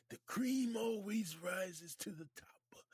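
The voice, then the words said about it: Imitates another person's voice. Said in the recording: “in my Macho Man voice”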